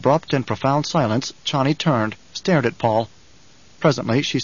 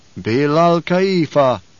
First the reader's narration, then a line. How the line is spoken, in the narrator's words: intoned the troop